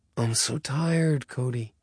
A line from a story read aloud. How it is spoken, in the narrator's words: he breathed